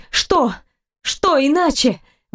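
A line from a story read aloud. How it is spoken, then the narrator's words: Exclamation. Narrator (Russian): воскликнула через мгновение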